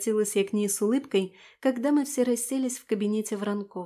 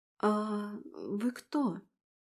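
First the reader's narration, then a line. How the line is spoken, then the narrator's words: Bewildered question. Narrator (Russian): растерянно спросила девушка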